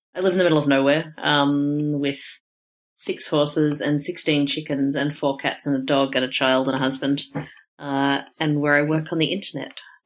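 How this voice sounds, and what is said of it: Australian accent. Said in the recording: “they may think that they're listening to a rural Maryland accent ... This is an Australian accent.”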